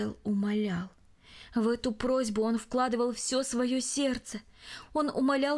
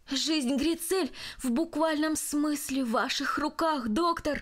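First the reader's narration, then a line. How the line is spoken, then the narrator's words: Impulsive exclamation. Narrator (Russian): импульсивно воскликнул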